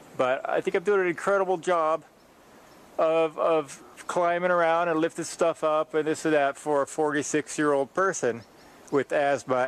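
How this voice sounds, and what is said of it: Stuffed-up, congested voice. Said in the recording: “I sound a little stuffed up. That's the allergies.”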